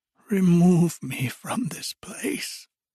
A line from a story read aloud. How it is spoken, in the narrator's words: said Scrooge in a broken voice